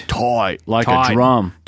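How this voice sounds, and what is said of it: Bad put-on Australian accent. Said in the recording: “That's our shitty Australian accent.”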